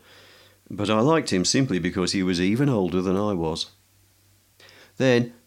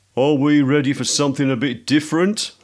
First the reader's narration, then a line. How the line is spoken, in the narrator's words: called out Jono